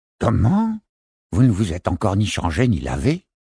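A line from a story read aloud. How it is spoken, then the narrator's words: Grumbled. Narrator (French): grommela l'une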